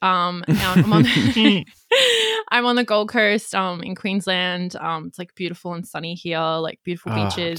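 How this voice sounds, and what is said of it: Australian accent. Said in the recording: “I'm in Australia, if you can tell by my accent”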